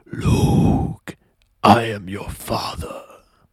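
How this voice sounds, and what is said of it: Darth Vader impression. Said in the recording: “the Darth Vader mask ... I'm gonna try to do that voice. I'm actually pretty good at voice imitations ... That's pretty good.”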